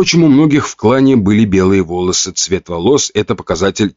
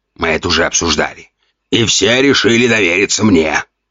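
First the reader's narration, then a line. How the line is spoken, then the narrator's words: Growl. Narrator (Russian): рыкнул Ген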